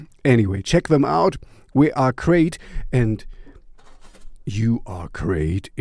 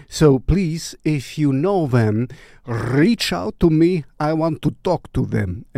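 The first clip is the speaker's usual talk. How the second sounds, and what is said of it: Put-on Russian accent. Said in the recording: “I don't know why I did it in a Russian accent.”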